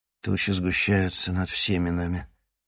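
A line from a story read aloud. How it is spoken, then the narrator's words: Gloomy. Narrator (Russian): мрачно проговорил Кривоносов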